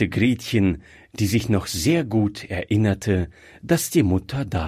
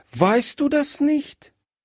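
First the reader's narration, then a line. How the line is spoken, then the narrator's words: Surprised exclamation. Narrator (German): rief Gretchen überrascht aus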